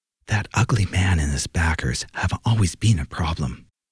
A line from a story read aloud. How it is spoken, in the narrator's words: Isabel muttered